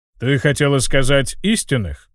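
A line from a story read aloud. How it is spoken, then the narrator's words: Snorting remark. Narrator (Russian): хмыкнул маг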